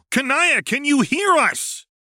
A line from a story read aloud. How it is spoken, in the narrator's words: Karkat yelled in her ear